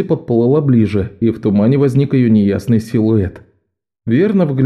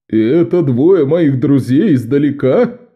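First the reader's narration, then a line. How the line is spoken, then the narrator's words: Laughing fisherman. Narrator (Russian): засмеялся рыбак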